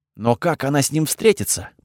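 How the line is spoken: Whisper. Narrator (Russian): прошептал я

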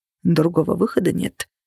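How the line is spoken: Muttered. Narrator (Russian): пробормотал Влад

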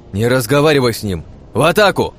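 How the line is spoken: Shouted. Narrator (Russian): крикнул второй ангел

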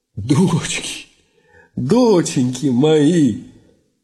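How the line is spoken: Sighing. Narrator (Russian): Иван вздохнул

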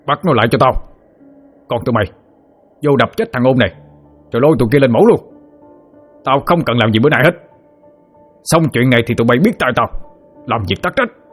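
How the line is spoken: Roaring. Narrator (Vietnamese): Ông Chánh gầm lên

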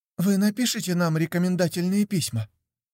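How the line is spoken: Squeaky voice. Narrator (Russian): пропищала Мелани, одна из моих шеф-де-парти

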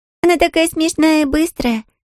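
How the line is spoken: Muffled giggle. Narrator (Russian): хихикнула в ладошке Мирра

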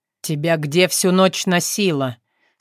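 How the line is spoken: Stern question. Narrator (Russian): строго спросил Артем

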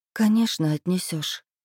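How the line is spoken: Sighing. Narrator (Russian): вздохнула

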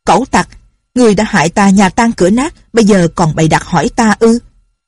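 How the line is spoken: Furious shout. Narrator (Vietnamese): Lâm Bình Chi cả giận quát

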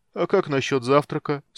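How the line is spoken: Sleepy question. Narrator (Russian): сонно моргая, поинтересовался Карамон

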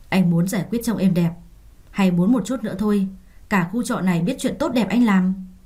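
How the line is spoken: Harsh, menacing voice. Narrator (Vietnamese): gằn giọng cất lên

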